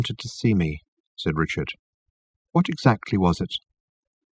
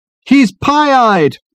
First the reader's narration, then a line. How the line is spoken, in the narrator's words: his companions bawled happily